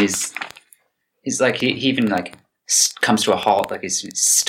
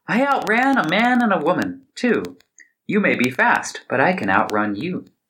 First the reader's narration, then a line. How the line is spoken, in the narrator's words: The gingerbread man laughed and said